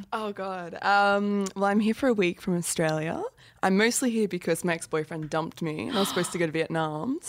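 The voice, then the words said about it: Attractive Australian accent. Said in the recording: “She's got a sexy accent.”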